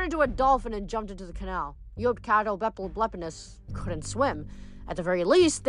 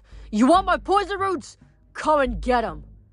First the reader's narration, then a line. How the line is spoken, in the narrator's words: yelled